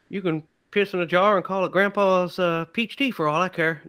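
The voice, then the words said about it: Imitates another person's voice, poorly. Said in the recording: “my Holly Hunter impression ... That was a terrible one.”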